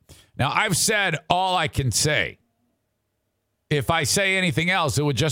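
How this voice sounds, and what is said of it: Usual voice. Nothing is said of it.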